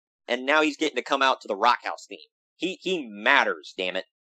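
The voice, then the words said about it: Sarcastic delivery. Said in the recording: “saying that sarcastically”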